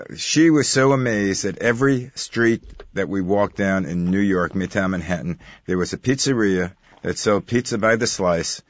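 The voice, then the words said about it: New York accent. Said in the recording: “I'm a native New Yorker, as you can tell by my accent.”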